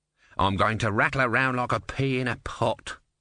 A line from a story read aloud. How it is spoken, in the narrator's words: grumbled the tortoise